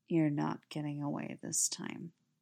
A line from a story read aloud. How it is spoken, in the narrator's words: he murmurs, breath hot against Stiles' skin